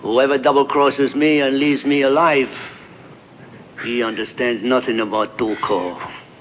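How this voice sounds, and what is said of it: Standardized, clear Mexican accent as Tuco. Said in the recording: “I love that little sadistic laugh at the end. ... I don't think it's a very good Mexican accent. It's standardized. ... I wanted specifically to be clear in what I was saying.”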